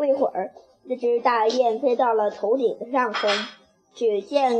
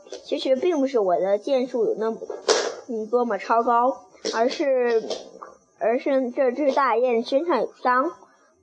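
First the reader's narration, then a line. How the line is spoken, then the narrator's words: Laughing. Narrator (Chinese): 更赢笑着说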